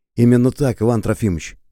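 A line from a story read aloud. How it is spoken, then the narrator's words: Plain. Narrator (Russian): ответил Шубин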